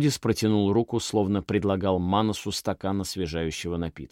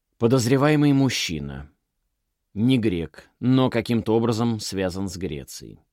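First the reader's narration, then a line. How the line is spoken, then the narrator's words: Flat, impassive. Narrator (Russian): бесстрастным тоном продолжал Манос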